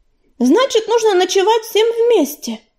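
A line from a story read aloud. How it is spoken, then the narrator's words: Exclaiming. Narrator (Russian): воскликнула Первоцветик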